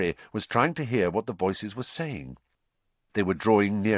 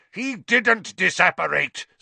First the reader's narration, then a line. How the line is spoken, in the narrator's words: Snape roared, now very close at hand